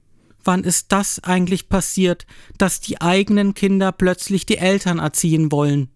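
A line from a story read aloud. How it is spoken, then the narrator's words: Plain. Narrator (German): fragt meine Mutter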